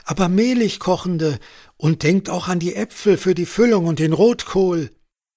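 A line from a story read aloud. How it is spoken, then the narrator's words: Calling after two people. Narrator (German): rief Sophie den beiden hinterher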